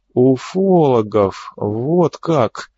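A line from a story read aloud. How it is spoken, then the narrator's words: Drawn out. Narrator (Russian): протянул Серов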